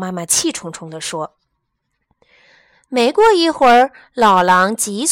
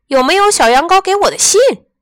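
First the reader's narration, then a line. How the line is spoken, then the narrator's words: Angry roar. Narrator (Chinese): 他大吼着，因为发现小羊羔没来赴约，让他很恼火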